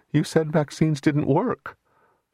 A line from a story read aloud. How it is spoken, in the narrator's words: she said, her voice shaking a little